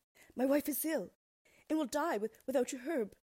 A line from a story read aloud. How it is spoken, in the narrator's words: pleaded